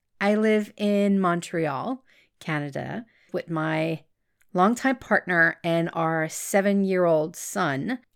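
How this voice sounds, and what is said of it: Slight French-Canadian accent. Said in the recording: “I am French-Canadian. That's why you will hear a slight accent in my voice.”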